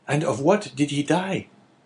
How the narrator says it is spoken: asked Caderousse in a choking voice

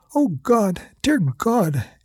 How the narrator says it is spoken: Amy cried

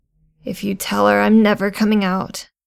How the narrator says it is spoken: she croaked

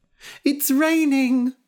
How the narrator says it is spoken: shouted Kitty

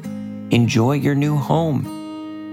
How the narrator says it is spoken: said Avi Axolotl

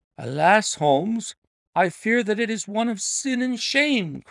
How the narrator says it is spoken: cried my friend

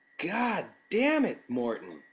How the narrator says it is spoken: I yelled

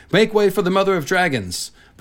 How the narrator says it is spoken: Jhogo shouted as he rode before her litter

